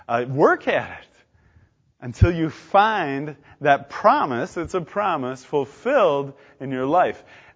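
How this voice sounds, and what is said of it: Loud, emphatic preaching. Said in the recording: “say that so loudly”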